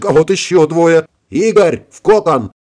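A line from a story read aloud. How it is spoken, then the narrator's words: Alarmed yell. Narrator (Russian): Завопил я, заметив, как к машинам пожалевшего себя и своих ребят Семенова подходит сразу 6 вражеских истребителей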